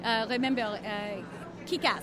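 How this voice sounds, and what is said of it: Put-on French accent. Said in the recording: “I'll just do this with a French accent now.”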